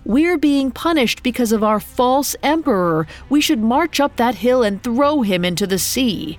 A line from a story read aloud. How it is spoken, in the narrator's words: A third yelled